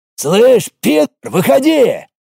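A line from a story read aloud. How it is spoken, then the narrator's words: Bark. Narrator (Russian): рявкнул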